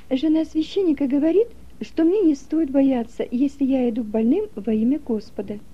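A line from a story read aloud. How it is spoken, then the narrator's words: Plain. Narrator (Russian): сказала она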